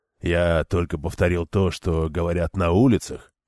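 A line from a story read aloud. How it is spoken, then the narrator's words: Grumbling. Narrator (Russian): буркнул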